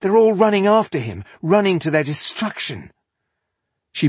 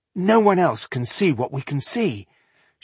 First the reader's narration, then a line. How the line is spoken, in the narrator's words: she whispered in despair